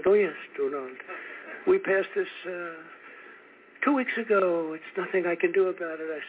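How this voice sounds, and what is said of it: Imitating Emmanuel Macron's accent. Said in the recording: “We're in the most beautiful accent.”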